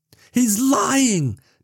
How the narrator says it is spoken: Nicole screamed over the din, her voice tearing her vocal cords

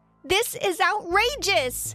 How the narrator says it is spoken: I yelled out

